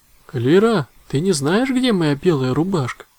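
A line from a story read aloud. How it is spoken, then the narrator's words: Loud call. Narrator (Russian): громко позвал Мах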